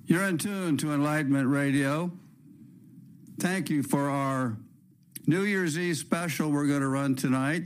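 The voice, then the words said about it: Hoarse, partly lost voice. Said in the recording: “my voice is still half gone. I had a bout of flu and pneumonia”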